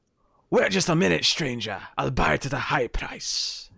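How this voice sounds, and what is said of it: Impression of Resident Evil 4 merchant. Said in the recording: “I, I, can do a decent impression of the merchant from Resident Evil Four ... That came out sounding a little bit weird”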